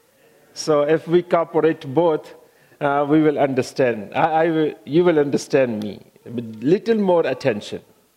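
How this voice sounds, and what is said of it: Non-native English accent. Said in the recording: “English is my fourth language ... My accent, the words, you know, can be a little hard”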